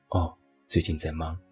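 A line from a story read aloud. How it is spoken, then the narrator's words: Flat, indifferent reply. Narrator (Chinese): 于是他淡淡的回复了一句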